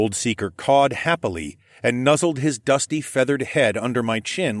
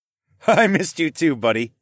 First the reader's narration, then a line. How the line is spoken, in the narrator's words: laughed